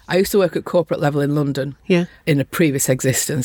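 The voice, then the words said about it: Mild Lancashire accent. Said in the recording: “This is not a Lancashire accent. This is a 30 years watered down Lancashire accent.”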